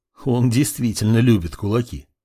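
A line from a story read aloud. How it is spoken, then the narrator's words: Amused snort. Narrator (Russian): хмыкнул маг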